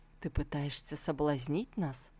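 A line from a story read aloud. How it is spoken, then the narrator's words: Embarrassed, trembling voice. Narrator (Russian): Стараясь скрыть возникшую неловкость, дрогнувшим голосом проговорил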